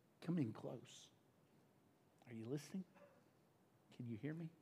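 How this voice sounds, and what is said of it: Whispering quietly. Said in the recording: “You may need to turn me up, Wes, while I'm whispering.”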